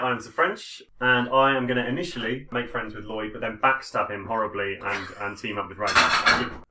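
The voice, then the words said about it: Terrible put-on accent. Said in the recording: “our first hint of terrible accent.”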